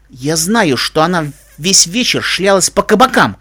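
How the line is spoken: Barked. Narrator (Russian): рявкнул шериф

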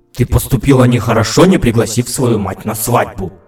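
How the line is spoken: Grumbling queen, short chuckle. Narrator (Russian): проворчала королева и коротко усмехнулась

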